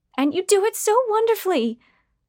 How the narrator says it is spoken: Trudy shouted in glee, although something about her speech pattern sounded forced

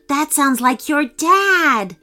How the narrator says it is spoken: Ilani cried to Aurelio

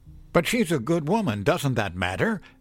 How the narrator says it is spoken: cried

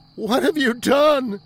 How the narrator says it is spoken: Ethan sobbed

